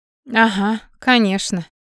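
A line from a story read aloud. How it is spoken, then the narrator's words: Sarcastic inner thought. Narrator (Russian): мысленно съязвила Алекса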